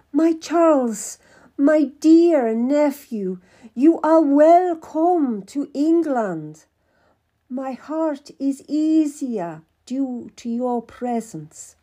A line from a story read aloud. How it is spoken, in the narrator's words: cried out